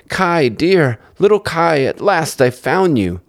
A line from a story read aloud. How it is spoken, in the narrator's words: called out